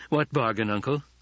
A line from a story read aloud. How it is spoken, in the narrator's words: his voice remained calm and reasonable, betraying none of the elation that filled him